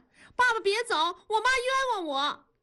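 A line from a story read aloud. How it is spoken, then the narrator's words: Immediate urgent shout. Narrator (Chinese): 燕妮马上就喊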